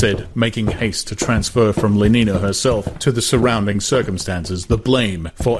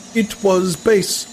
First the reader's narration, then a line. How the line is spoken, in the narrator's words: said indignantly